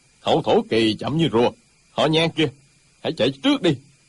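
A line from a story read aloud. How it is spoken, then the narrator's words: Angry. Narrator (Vietnamese): Một trong ba người đang giao đấu tức giận nói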